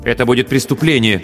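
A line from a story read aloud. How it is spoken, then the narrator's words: Suddenly sharp. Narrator (Russian): неожиданно резко сказала мама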